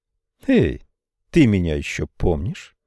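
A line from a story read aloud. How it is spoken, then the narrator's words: Forced casual, tense. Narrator (Russian): Блайс очень старалась говорить легкомысленным тоном, но ее поза выдавала нерешительность и напряженное ожидание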